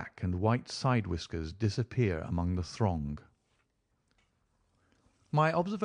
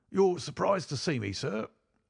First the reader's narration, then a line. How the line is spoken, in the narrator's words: said he in a strange, croaking voice